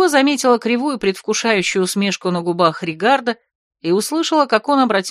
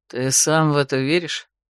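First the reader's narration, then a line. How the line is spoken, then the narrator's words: Skeptical snort. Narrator (Russian): хмыкнул Влад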